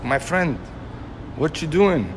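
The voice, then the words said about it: Heavy foreign accent. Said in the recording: “heavy accent,”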